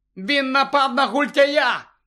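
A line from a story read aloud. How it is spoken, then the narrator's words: Shout. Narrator (Ukrainian): крикнув Гаррі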